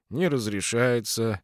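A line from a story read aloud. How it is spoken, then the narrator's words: Bored voice. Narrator (Russian): скучным голосом сказал дежурный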